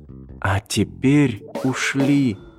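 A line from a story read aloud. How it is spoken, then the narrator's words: Whisper in ear. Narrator (Russian): шепнула она ему на ухо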